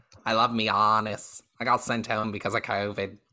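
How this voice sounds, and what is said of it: Veronica Green impression. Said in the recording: “he talks like Veronica Green ... doing a Veronica Green impression”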